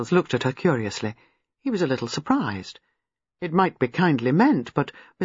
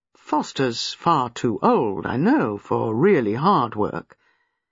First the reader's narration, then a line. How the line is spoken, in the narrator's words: He said slowly